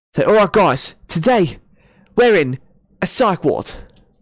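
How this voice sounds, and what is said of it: British accent drifting South African. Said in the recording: “That was like some weird South African, like, ... yeah, mix ... I was getting a South African accent”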